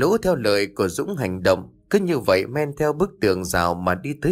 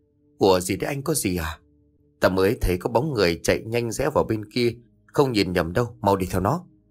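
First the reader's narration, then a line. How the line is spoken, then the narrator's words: Quiet. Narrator (Vietnamese): Một thằng liền nói khẽ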